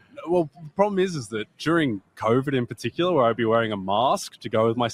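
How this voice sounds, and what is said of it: Non-American foreign accent. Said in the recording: “you hear this guy's accent”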